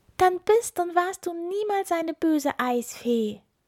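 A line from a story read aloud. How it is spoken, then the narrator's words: Exclaiming. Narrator (German): rief Ilvi aus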